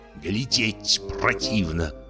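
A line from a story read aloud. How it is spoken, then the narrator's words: Muttered. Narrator (Russian): бормотал он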